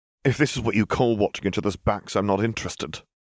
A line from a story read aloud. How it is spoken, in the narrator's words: Harry spat